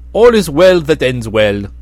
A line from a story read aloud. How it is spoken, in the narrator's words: laughed the prince